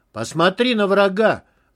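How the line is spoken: Man yelling. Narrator (Russian): заорал мужик лет 40

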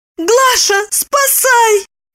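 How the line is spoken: Shouting. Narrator (Russian): закричала она

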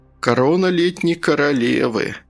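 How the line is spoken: Sighing investigator. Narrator (Russian): следователь вздохнул

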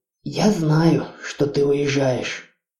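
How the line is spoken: Mother speaking quietly. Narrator (Russian): тихо произнесла мама Хона

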